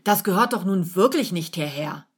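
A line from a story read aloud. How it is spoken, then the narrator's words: Accusing call. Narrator (German): ruft anklagend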